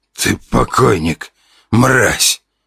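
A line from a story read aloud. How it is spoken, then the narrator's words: Hoarse wheeze. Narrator (Russian): прохрипел отец года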